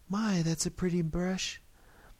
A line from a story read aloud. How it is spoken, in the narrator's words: she exclaimed